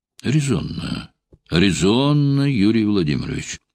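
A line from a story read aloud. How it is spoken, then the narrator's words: Calm, knowing smirk. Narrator (Russian): отозвался Брежнев спокойно, с легкой понимающей усмешкой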